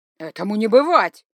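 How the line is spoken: Shouted. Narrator (Russian): закричал

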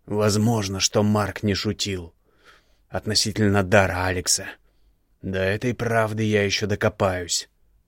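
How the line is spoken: Hissing. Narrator (Russian): шипел Игнар

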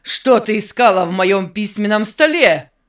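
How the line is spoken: Threatening shout. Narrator (Russian): Закричал угрожающе

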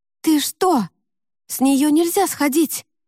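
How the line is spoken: Exclaimed. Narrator (Russian): воскликнула Лика

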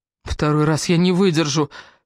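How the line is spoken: Whining. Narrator (Russian): скулил Джастин

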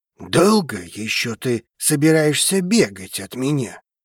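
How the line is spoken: Hissing. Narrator (Russian): Зашипел он

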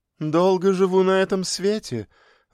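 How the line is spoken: Laughing. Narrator (Russian): рассмеялась

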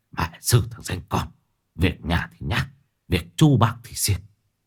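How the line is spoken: Muttering through gritted teeth. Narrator (Vietnamese): ông không tiện lên tiếng, chỉ khẽ lầm bầm nghiến răng

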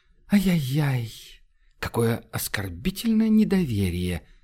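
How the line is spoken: Silky, insinuating. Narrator (Russian): вкрадчиво изрек Монья

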